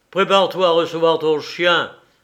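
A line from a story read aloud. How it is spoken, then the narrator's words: Peremptory commanding tone. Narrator (French): ordonna Scott d'un ton péremptoire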